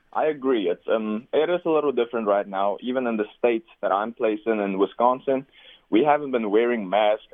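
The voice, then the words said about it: South African accent. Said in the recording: “I could tell by your accent you're not an American, you're not a Canadian. South African, born and raised.”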